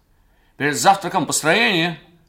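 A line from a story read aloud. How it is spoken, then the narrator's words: Shouting. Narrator (Russian): крикнул нам Холли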